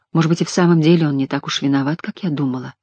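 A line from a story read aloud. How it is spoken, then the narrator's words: Mumble. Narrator (Russian): пробормотала она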